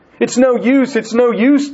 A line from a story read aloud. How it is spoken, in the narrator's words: Dirty cried